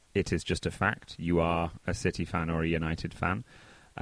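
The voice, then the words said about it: Manchester English accent. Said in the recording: “you're from Manchester ... you can hear my accent”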